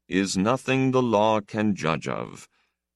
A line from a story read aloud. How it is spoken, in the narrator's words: the older man said dryly